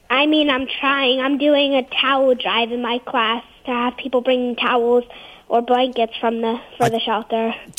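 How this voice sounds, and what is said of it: Slight New Jersey accent. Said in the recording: “a little bit of a Joyzy accent you had there”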